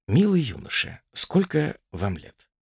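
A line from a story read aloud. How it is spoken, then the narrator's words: Very calm. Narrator (Russian): Отто начал очень спокойно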